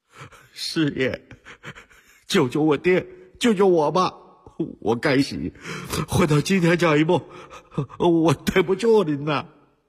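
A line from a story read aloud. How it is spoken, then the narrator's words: Shocked tearful pleading. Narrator (Chinese): 年子见了文四爷 惊愕万分 甩着哭腔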